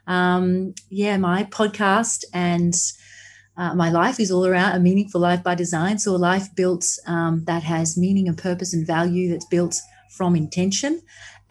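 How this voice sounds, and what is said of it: Australian accent. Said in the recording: “I'm from Australia, if that wasn't already obvious... I'm already in love with the accent.”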